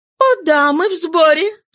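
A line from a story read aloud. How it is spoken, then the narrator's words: Laughing. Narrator (Russian): смеясь, отвечала Нана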